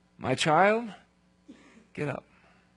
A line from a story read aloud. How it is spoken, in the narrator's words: he said in a loud voice